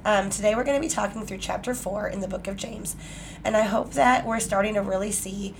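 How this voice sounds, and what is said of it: Scratchy, sick-sounding voice. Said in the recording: “my voice sounds awful. I'm super scratchy ... I'm going to be coughing and sniffling ... Sorry for my voice”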